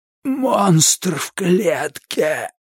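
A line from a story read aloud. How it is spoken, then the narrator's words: Forced out. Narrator (Russian): выдавил Кларенс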